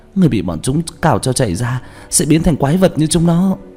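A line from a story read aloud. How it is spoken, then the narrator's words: Sobbing schoolgirl. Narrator (Vietnamese): Một nữ sinh khóc nức nở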